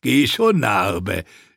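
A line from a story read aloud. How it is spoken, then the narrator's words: Mocking. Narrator (German): spottete einer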